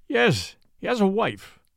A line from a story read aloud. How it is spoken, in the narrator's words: replied Achmet Zek